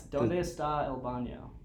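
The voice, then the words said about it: Spanish with a gringo accent. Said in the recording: “I definitely have a gringo accent.”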